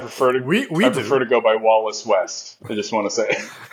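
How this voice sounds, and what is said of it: Convincing put-on North American accent. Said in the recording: “Your North American accent is way too good for you to be Jeremy Irons.”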